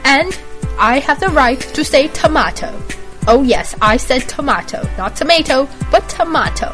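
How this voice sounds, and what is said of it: Deliberately bad fake British accent. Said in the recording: “inspired me to fake a British accent... I find the British accent that I'm faking right now to be quite ridiculously fail... fake a British accent that is completely fail”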